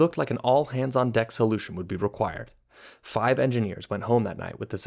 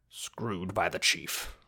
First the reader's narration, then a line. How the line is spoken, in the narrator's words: Claude mutter